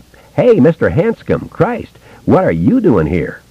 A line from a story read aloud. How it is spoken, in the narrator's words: Ricky Lee cried almost joyfully